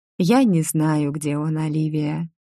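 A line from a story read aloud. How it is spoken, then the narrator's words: Tired. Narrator (Russian): устало проговорила я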